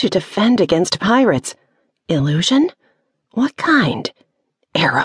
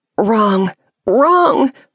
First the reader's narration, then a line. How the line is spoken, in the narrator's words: her mind squeaked